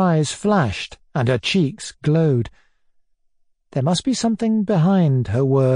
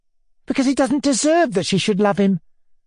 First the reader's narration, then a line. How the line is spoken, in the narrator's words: answered hotly